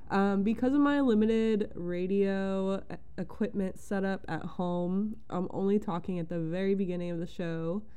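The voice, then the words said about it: Slightly congested voice. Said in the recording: “I sound a little congested.”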